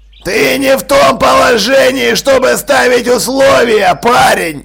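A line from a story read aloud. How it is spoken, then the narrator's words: Growled. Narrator (Russian): рыкнул Джекрам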